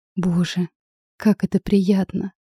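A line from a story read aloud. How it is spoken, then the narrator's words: Soft sigh. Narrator (Russian): Я чуть вздохнула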